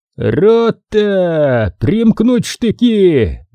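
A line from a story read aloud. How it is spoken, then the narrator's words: Shouted command. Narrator (Russian): закричал Нелюбин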